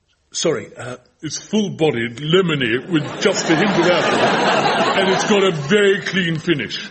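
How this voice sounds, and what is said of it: Posh, high-handed accent. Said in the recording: “what about the accent? ... And the laugh. Very high-handed, excellent.”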